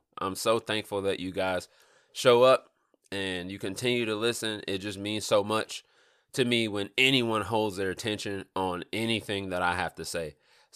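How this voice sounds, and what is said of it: Stuffy, congested nasal voice. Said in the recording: “I sound a little stuffy ... My nose is got some issues going on with it”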